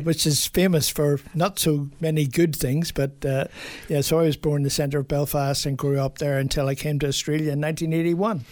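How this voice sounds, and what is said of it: Irish accent. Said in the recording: “people might notice the Irish accent.”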